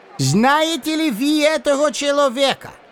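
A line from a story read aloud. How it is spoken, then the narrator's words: Shout. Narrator (Russian): крикнул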